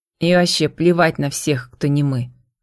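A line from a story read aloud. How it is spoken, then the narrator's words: Scoffing snort. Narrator (Russian): хмыкнул Леандро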